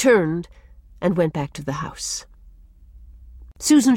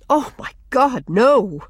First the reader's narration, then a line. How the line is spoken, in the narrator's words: exclaimed Walter passionately